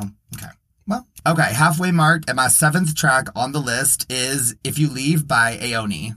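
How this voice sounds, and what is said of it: Usual voice. Nothing is said of it.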